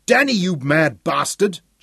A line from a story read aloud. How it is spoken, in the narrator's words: Jock yelled angrily